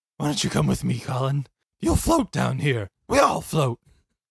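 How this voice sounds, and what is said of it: Creepy clown character voice. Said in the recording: “Pennywise impression... So good.”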